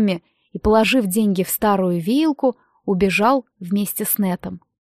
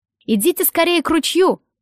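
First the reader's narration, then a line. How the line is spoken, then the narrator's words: Distant shout. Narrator (Russian): крикнул кто-то около гумна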